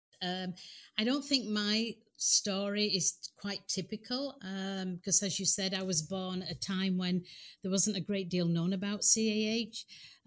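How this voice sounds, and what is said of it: Speaks with a noticeable accent. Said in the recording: “even with her accent, which I think is adorable”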